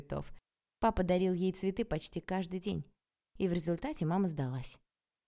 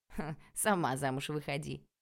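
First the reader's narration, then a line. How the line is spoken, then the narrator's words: Giggling. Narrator (Russian): хихикнул Арчи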